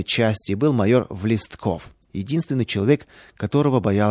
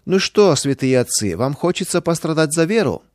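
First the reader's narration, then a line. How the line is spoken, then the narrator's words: Mocking question. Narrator (Russian): спросил ДПНК насмешливо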